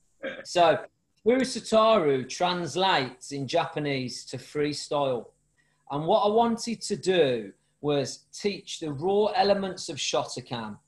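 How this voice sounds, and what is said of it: Birmingham (Brummie) English accent. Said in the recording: “your Brummie accent”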